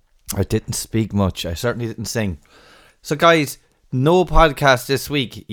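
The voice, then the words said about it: Slightly hoarse, groggy voice. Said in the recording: “groggy head I made this morning, and a little bit of a hoarse voice ... as you can hear by my voice”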